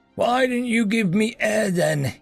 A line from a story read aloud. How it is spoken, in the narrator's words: he croaked